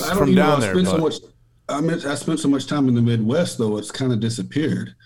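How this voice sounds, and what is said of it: Deep Southern American accent. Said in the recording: “you're our first real deep Southern accent ... Deep South ... it was thicker than this”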